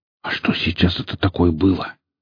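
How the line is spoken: Whispered question. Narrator (Russian): шепотом спросил парень

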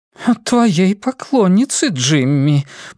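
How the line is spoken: Cooing. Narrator (Russian): проворковала Тамра

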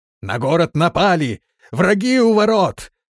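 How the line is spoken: Shouting. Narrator (Russian): кричал он

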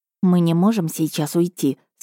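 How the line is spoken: Whispered. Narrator (Russian): сказала я тоже шепотом

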